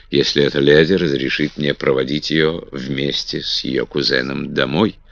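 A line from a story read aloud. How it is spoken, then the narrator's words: Calm. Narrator (Russian): спокойно сказал Дагвилар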